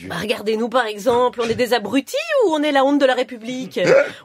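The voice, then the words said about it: Belgian French accent. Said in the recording (French): “moi j'ai l'accent belge”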